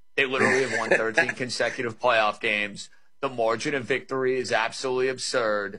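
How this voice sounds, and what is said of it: New York accent. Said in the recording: “You can tell by the dialect I'm a New York guy”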